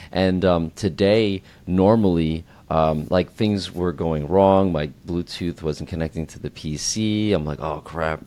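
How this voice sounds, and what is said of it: Voice a little deeper than usual. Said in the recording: “I stayed out a little later last night, and that's why my voice is a little deeper. Because as the music gets louder, you need to speak a little bit louder for a little bit longer.”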